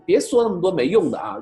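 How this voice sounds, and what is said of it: Northeastern Chinese dialect. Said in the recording (Chinese): “用东北话讲”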